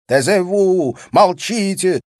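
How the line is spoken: Angry shouting, then babbling. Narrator (Russian): сердит кричал француз лепетал

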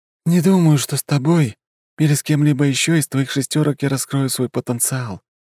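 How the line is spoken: Sigh. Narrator (Russian): вздохнул Исаак

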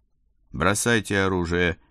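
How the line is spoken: Spat through gritted teeth. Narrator (Russian): сплюнул сквозь зубы капрал Дзержинский

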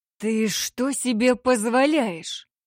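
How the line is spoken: Hissing with a growl. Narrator (Russian): Прошипел он, и в его шипении слышалось настоящее рычание

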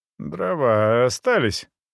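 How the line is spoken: Sleepy question. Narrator (Russian): сонно осведомился я

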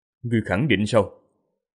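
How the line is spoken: Cold, slow. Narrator (Vietnamese): Vương Lâm đôi mắt lạnh lùng, chậm rãi, nói

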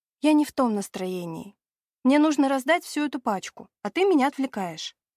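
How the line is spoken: Weary sigh. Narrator (Russian): вздохнув

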